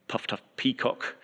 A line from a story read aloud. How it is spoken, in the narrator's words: my South African colleague muttered under his breath